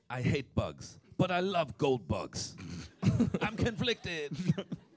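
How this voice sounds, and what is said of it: Puts on an accent. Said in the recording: “Was that accent okay? ... That was okay, yeah.”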